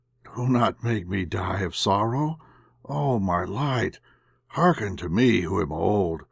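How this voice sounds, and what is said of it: Old man's trembling, sobbing voice. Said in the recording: “sobbed he in a trembling voice”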